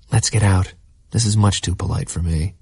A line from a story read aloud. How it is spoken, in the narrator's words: Jordan whispered